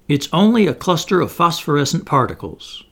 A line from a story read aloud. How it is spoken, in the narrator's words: exclaimed one of the officers